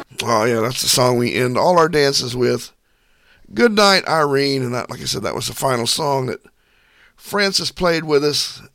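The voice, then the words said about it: Worn-out, hoarse voice. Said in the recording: “my voice is just about shot. Allergies have been kicking my butt lately”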